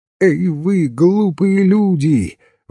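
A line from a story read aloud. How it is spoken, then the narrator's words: Trembling shout. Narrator (Russian): выкрикнул он с дрожью в голосе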